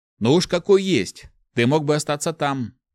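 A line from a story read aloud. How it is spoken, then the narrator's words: Snapping retort. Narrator (Russian): Огрызнулся Март, уже не удивляясь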